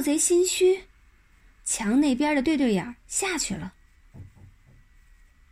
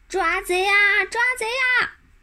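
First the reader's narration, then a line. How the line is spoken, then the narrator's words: Shouting. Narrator (Chinese): 马小跳还叫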